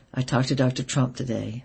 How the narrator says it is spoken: said with a heavy sigh

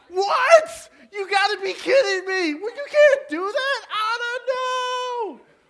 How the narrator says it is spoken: screaming at the TV

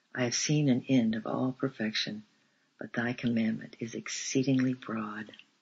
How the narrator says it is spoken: he quoted quietly

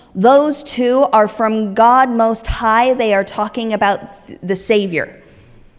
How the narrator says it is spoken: that woman with the spirit inside of her starts yelling

